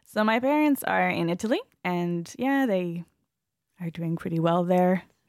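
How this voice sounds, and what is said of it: Mixed American, Australian, English accent. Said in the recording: “my accent comes from my American, Australian, English teachers... it's all mixed up... a bit of a weird accent”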